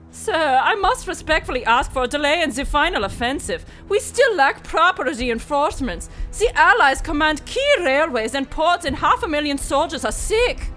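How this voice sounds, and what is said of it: Put-on German accent. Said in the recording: “Where is your accent from? ... Germany, sir.”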